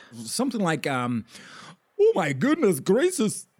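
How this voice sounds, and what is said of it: Mock Indian accent. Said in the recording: “Indian guy! How's your, what is the name, how's your, apple accent?”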